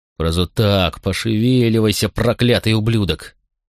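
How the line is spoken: Growled. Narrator (Russian): прорычал Макрон

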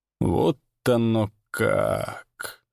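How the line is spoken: Surprised drawl. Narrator (Russian): удивленно протянул Данька

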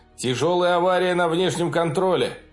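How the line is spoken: Shout. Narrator (Russian): прокричал чей-то голос

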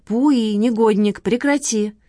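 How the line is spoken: Laughing exclamation. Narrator (Russian): воскликнула Лола со смехом

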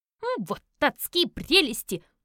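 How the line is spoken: Barking, hissing with anger. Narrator (Russian): рявкнул Альф и зашипел от гнева

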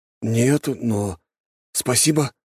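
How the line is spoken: Breathless exhale. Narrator (Russian): выдохнул парень

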